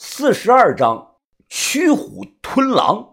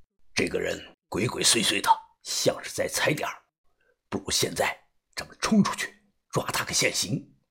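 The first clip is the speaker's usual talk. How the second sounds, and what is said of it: Quiet, hushed voice. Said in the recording (Chinese): “同样小声的说道”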